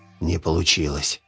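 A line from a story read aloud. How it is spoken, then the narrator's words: Whispered. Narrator (Russian): шепнул Витя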